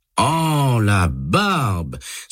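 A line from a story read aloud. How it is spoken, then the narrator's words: Exasperated exclamation. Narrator (French): s'exclame Douglas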